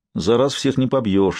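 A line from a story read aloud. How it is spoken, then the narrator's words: Sighed, Italian. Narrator (Russian): вздохнул итальянец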